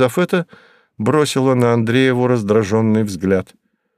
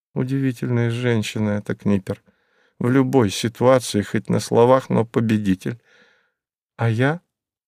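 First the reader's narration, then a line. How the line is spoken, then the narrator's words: Sad inner thought. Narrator (Russian): грустно подумала тогда Мария Федоровна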